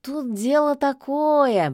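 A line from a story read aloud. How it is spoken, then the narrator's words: Drawling cat. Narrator (Russian): протянул кот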